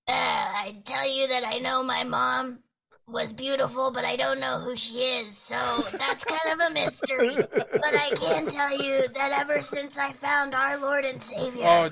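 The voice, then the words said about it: Silly dog character voice. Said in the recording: “There's a Bogie voice ... dog voices”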